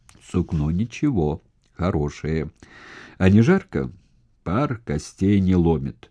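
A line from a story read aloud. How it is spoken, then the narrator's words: Approving old man. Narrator (Russian): старик сказал одобрительно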